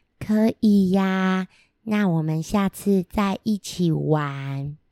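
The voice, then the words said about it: Shy, very quiet voice. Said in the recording (Chinese): “有点害羞…小小声的说”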